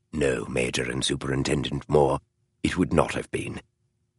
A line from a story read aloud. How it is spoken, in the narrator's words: Holmes answered softly